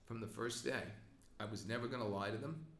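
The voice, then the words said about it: Emotional, strained voice. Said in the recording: “I'm getting emotional, I apologize ... I'm emotional”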